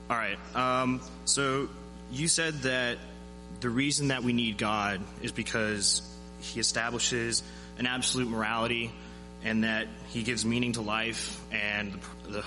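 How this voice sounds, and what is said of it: Nervous, shaky speaking voice. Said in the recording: “I sound nervous”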